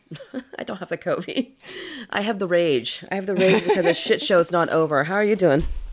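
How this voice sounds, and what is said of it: Hoarse voice. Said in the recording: “I'm feeling particularly hoarse today. I don't know why. ... Probably because I've been screaming at my TV”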